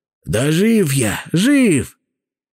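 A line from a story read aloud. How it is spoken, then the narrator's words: Hoarse rasp. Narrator (Russian): прохрипел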